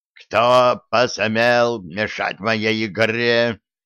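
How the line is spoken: Roaring. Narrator (Russian): взревел Гордон

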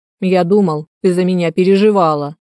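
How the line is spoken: Mock-offended grumble. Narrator (Russian): наигранно-обиженно буркнул

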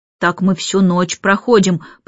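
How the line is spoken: Reluctant grumbling. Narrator (Russian): пробурчал Майкл, нехотя

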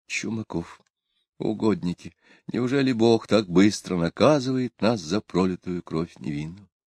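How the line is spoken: Terrified whisper. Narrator (Russian): Ксения, вздрогнула от ужаса, прошептала

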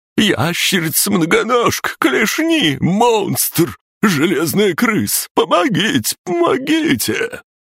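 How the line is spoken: Continuous screaming. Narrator (Russian): Он продолжал вопить

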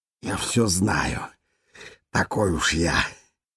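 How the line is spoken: Smirking. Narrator (Russian): ухмыльнулся он

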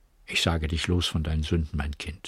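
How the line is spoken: Weak, tired voice. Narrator (German): sagte mit matter Stimme

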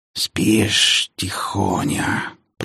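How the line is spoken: Hiss over phone. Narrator (Russian): прошипели в трубку

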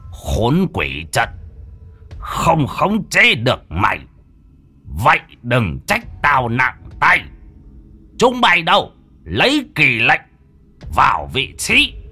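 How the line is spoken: Old man, harsh gritted voice. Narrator (Vietnamese): Lão tà sư gằn giọng

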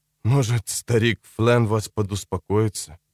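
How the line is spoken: Quiet mutter. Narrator (Russian): пробормотал он, наконец, тихонько

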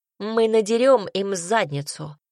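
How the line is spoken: Snort. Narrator (Russian): хмыкнул Рэйми

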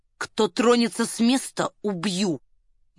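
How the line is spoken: Quiet warning. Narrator (Russian): негромко предупредил он

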